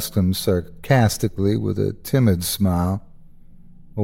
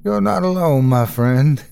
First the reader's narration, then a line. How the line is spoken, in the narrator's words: he laughed